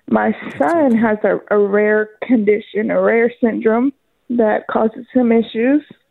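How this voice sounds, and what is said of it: Emotional voice. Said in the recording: “I'm a little emotional.”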